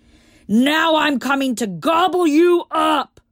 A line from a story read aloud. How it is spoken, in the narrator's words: roared the troll